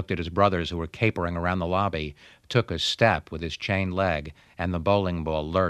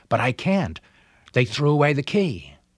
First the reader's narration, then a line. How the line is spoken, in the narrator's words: grinned from ear to ear, his mouth wet with excitement, cried out